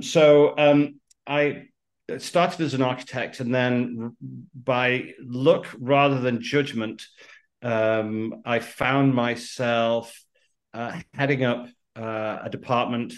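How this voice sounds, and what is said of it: British accent. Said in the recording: “Out of the UK, you could probably tell by the accent that doesn't sound like I'm from Los Angeles”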